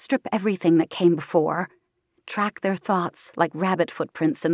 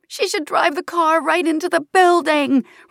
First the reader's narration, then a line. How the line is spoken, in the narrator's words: Raina screams in frustration